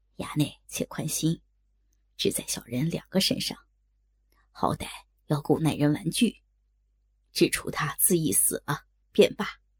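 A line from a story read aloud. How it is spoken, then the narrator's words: Low whisper in ear. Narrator (Chinese): 也是贴耳低声道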